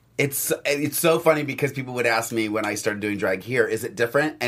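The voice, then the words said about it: Raspy, worn-out voice. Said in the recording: “All of our throats are gone right now because we've been talking all week ... everybody's all raspy”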